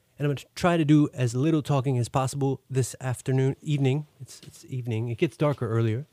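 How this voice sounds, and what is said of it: Deeper, congested sick-sounding voice. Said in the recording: “I have a cold, so you will be hearing a deeper register tonight from my voice.”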